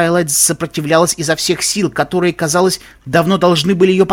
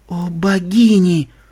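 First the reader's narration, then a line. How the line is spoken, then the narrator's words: Groaning. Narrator (Russian): застонал Вельвет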